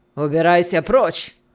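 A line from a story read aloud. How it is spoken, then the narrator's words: Rough reply. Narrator (Russian): ответил аукционист, грубо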